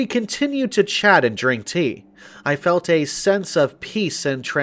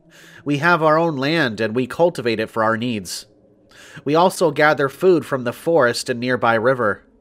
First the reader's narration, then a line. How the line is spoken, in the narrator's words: replied another villager